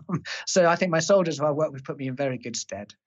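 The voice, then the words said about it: High-pitched posh English accent. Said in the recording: “toff officer in the army with my high pitched, uh, you know, ridiculous accent”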